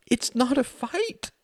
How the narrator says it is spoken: said Wendy, her voice breaking again

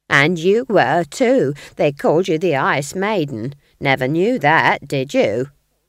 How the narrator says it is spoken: sneered Nanny

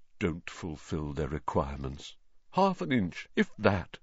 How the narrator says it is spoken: Nearly headless Nick, the ghost of Gryffindor Tower, was staring morosely out of a window, muttering under his breath

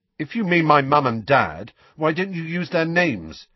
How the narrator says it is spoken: said Harry loudly

